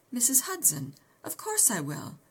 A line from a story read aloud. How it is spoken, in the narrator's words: exclaimed